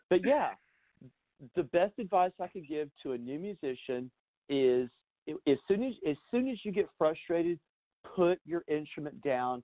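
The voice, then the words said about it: Slightly hoarse voice. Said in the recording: “my voice sounds a little hoarse.”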